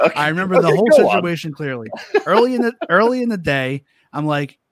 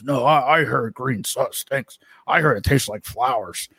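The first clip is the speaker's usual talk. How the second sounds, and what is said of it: Impression of a friend's voice. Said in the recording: “a good impression of me”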